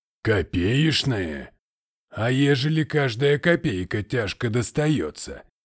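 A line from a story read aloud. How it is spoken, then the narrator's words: Grumbling merchant. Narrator (Russian): проворчал купец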